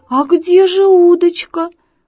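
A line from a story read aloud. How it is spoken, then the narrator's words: Bewildered shout. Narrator (Russian): растерянно крикнул Зайка Петя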